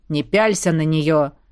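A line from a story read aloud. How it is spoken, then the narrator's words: Stern. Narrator (Russian): сказал один из моих захватчиков строгим тоном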